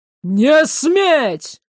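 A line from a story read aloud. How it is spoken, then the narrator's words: Roar filling the hall. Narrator (Russian): взревело на весь зал вразумление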